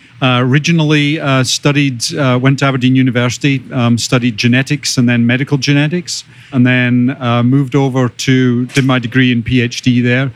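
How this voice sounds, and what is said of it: Scottish accent. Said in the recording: “you can probably tell from my accent that I'm originally from Scotland”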